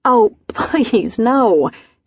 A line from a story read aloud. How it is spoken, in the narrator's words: said, laughing